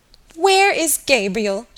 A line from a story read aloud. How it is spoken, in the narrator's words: she cried